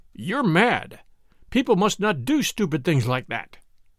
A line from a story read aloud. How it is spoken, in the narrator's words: he said to her in a harsh voice